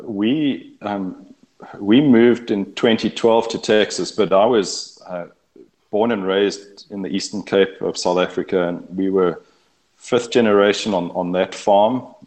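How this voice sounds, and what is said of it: South African accent. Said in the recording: “folks will gather by your accent that you're originally from South Africa”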